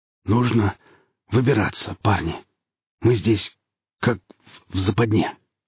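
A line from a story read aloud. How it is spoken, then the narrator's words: Hoarse. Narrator (Russian): хрипло сообщил Еремин бойцам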